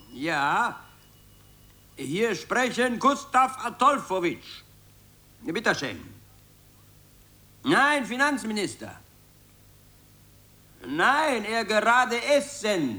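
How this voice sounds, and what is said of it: Put-on Moldovan foreign accent, broken German. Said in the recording (German): “sprich mit ausländischem Akzent ... Irgendeinen moldawischen, meinetwegen.”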